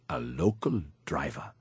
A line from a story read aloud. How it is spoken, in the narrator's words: He mumbled his reply